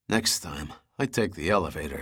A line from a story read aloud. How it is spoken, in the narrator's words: muttered